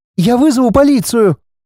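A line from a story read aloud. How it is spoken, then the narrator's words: Squeaky. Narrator (Russian): пропищала Лена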